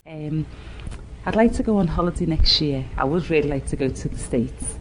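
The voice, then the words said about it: Speaks with a regional accent. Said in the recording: “Guess that accent. ... say where on the planet the speaker grew up”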